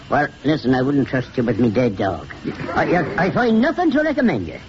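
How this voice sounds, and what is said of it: Yankee New England accent. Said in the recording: “Where did you acquire your Yankee accent, Doctor?”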